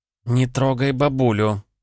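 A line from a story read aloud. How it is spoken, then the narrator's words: Through gritted teeth. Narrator (Russian): процедила Вишневецкая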